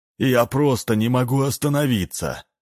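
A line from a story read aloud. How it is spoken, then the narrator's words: Young man's moan. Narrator (Russian): простонал парень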